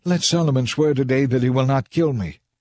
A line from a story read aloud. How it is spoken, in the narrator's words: he was pleading